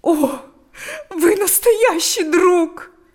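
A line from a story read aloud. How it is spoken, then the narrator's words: Said, then sobbing. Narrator (Russian): сказала она и разрыдалась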